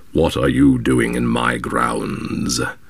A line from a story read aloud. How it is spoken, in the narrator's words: said the black man, with a hoarse growling voice